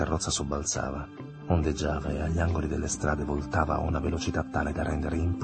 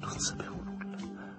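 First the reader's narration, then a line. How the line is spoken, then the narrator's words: Murmured. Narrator (Italian): mormorò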